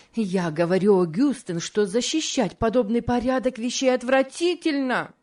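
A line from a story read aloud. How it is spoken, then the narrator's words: Increasingly heated exclamation. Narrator (Russian): воскликнула мисс Офелия с возрастающей горячностью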